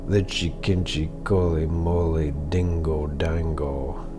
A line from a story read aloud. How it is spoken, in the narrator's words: his dog answered the song, softly and sadly, and sang